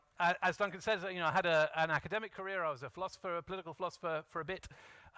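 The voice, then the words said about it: Welsh accent. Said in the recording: “You can tell from my accent that I'm not from around here. I was born and brought up in South Wales”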